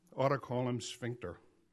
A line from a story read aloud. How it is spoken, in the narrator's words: I muttered under my breath